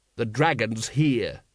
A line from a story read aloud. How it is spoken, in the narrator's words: he snapped